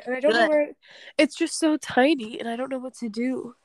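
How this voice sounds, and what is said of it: Baby-like talking voice. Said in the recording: “I feel like I'm talking like a baby.”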